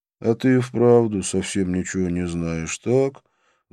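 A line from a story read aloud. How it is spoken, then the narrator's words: Sigh. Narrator (Russian): вздохнул Вишну, и его улыбка исчезла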